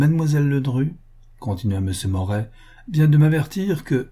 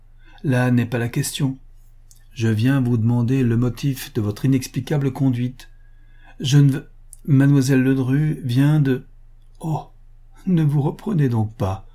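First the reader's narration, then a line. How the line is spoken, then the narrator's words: Mocking. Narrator (French): dit la jeune femme d'un ton railleur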